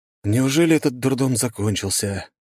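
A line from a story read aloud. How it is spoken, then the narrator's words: Tired sighing words. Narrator (Russian): устало вздыхая, выговорил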